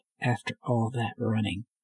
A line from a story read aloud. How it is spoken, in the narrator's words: she muttered